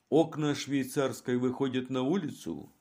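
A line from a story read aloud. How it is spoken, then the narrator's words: Plain question. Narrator (Russian): спросил он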